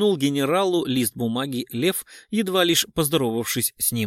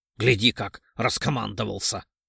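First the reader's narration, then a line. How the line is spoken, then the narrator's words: Snorting scoff. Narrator (Russian): фыркнул Орлов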